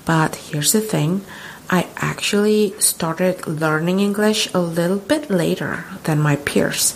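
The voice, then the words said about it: Convincing American English accent. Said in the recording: “I speak with a rather convincing American accent”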